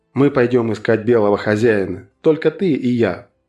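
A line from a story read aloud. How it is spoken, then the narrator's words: Plain. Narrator (Russian): сказал он Твала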